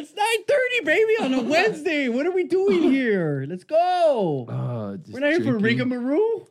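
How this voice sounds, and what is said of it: Imitates another person's voice. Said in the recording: “That was my Gruden impersonation of trying to motivate you.”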